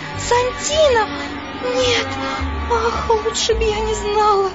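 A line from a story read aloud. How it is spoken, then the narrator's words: Bitter sobbing, queen. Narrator (Russian): горько королева зарыдала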